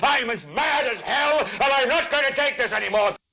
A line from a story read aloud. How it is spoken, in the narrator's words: yell